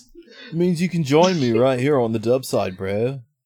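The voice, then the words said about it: Surfer dude voice. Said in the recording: “surfer voice”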